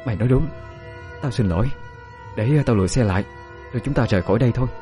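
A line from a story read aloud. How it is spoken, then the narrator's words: Sighing reply. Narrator (Vietnamese): Dung nhắm mắt thở dài một hơi rồi trả lời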